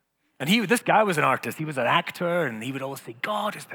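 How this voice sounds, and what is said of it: Usual voice. Nothing is said of it.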